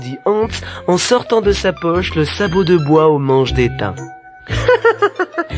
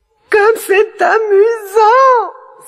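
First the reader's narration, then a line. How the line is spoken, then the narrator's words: Delighted exclamation. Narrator (French): s'écria la princesse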